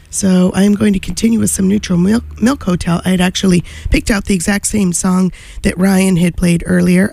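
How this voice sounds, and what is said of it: Voice sounds like a cold. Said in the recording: “I have a cold”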